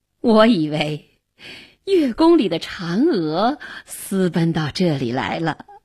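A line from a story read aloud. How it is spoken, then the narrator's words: Laughing. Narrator (Chinese): 元帝笑着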